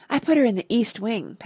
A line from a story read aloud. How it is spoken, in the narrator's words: panted H